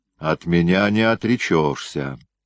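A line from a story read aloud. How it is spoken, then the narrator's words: Menacing. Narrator (Russian): грозно сказала она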